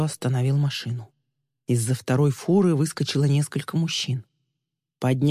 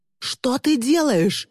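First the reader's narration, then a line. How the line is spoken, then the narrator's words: Wailing scream. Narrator (Russian): завопил Тристин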